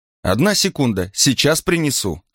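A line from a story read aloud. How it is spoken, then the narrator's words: Shouting. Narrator (Russian): крикнула она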